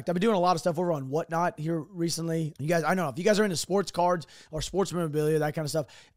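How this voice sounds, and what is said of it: Strained, worn-out voice. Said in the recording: “my voice is pretty jacked up. Uh, it sounds jacked. ... that's why my voice sounds like this because I'm talking every night”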